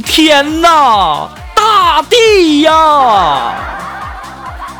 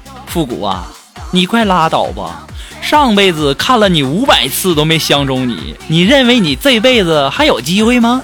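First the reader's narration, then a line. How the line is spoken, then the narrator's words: Flat indifferent. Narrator (Chinese): 我那女神淡淡的说了一句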